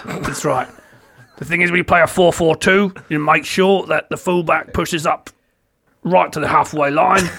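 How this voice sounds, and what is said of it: Imitates another person's voice. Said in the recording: “you want to do it more like that, Sean Dyche ... He sounds like Sean Dyche, is what he sounds like.”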